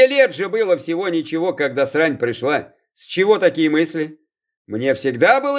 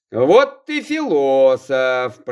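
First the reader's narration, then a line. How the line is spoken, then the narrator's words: Drawling. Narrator (Russian): протянул Захар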